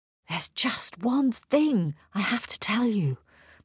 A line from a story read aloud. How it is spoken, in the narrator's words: Martina whispered